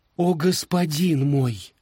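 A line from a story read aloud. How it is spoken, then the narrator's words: Woman pleading. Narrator (Russian): взмолилась она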